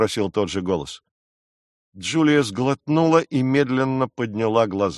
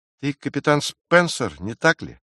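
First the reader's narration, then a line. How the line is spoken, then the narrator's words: Trembling, bewildered voice. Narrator (Russian): произнесла дрожащим голосом, недоумевая, откуда этот человек знает ее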